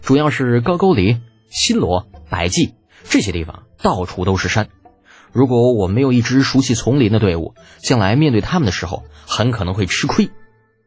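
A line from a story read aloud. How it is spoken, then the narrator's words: Smiling. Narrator (Chinese): 李浩笑着说道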